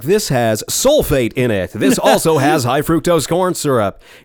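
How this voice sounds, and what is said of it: Radio announcer voice. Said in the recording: “That radio voice.”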